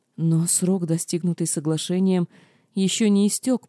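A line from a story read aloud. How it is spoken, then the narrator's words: Groaning. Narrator (Russian): простонала я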